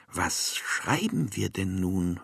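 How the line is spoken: Plain. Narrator (German): fragte er

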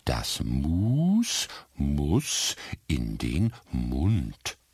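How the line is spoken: Very slow explaining. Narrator (German): erklärte ihr ganz langsam

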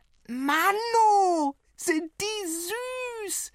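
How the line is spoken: Little one bellowing. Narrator (German): brüllte die Kurze

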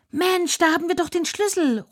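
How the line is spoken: Calling out. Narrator (German): ruft Vinzi

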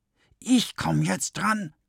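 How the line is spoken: Whispered. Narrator (German): wispert die andere

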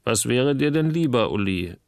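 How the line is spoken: Plain. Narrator (German): fragte Christopher

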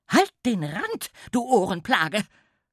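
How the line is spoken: Woman snapping angrily. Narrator (German): schnauzte sie ihn an

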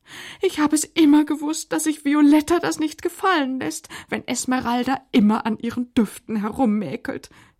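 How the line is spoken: Continued whining. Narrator (German): jammerte Pelanda weiter

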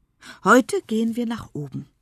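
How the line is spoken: Plain. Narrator (German): sagt Enne

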